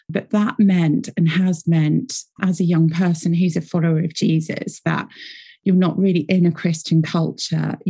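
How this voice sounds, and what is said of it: British accent. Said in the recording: “I'm based here in Britain. You can probably tell from my accent.”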